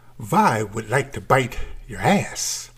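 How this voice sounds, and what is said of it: Bad Transylvanian vampire accent. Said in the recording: “the horrible Transylvanian accent”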